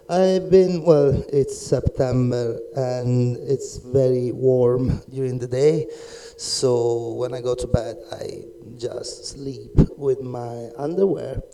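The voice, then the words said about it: Rough, damaged voice. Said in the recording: “pardon my voice ... during the night is colder, so my voice is screwed up”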